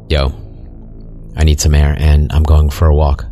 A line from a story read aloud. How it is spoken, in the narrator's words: I said